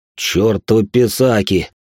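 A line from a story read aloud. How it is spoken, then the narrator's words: Grumbling. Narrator (Russian): пробурчал Сергей Ильич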